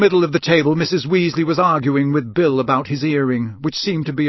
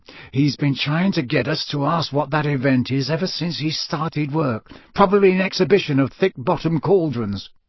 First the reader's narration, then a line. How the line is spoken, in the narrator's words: Ron rolled his eyes and muttered to Harry and Hermione